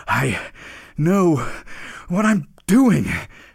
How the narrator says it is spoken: panted the reindeer

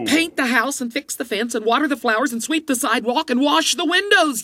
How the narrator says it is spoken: yelled the apprentice

